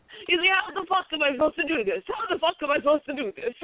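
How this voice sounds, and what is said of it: Impression of exasperated cooking contestant. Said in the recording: “you do a perfect Damiano impression, and that was pretty good.”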